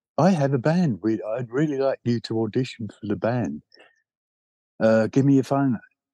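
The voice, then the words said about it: Imitated Bromley accent. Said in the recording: “He said in a very Bromley accent”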